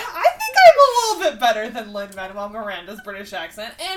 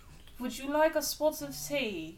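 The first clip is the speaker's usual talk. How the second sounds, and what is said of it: Put-on British accent. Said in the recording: “How's my British accent? ... It's the only thing I know how to say in British ... It is a little better.”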